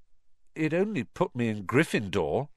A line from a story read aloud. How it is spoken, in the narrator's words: said in a defeated voice